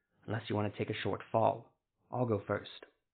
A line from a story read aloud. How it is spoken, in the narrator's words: he whispered